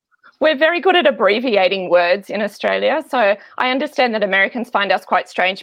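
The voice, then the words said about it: Australian accent. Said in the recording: “you have a really sweet accent. It's the best accent. Every American in the world wants to have your accent ... you are in Australia”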